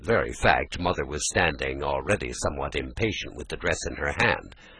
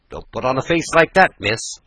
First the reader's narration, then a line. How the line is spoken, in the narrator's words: she said sharply